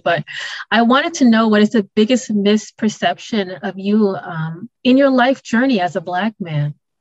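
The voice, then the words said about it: Choked-up, tearful voice. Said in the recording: “I'm holding back the tears, you can probably hear in my voice, I'm choking up a little bit”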